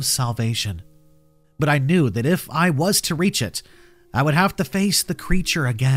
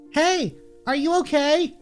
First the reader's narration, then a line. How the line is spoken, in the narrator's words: Her voice was like a cool drink of water in the scorching desert